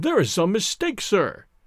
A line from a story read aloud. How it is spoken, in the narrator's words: cried one of the other players